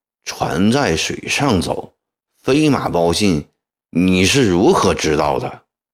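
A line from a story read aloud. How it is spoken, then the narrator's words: Cold. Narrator (Chinese): 曾国藩冷冷地说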